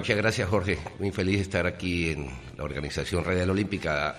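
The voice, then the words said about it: Deep, thick announcer voice. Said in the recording (Spanish): “voz de locutor ... voz gruesa, voz de locutor ... La tiene gruesa ... La tiene así gruesa ... voz gruesa”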